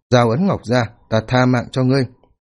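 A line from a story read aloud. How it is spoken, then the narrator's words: Cold voice. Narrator (Vietnamese): Mục Quyết Dung lạnh lùng nói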